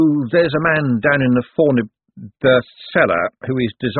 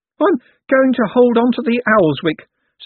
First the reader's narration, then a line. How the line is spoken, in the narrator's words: said the artist nervously